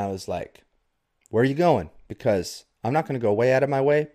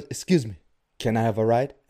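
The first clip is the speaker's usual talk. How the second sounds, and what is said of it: Imitated stranger's voice, unplaceable accent. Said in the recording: “I can do his voice, okay? I don't know the origin of this voice. I don't know what area on the planet it comes from, but I can do it”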